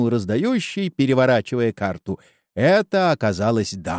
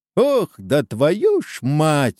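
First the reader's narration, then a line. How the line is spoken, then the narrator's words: Exclamation. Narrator (Russian): воскликнул угадывающий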